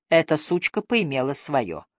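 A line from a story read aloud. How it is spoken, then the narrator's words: Mutter. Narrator (Russian): пробормотала Линли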